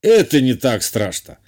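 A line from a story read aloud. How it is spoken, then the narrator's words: Dismissive snort. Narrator (Russian): хмыкнул тот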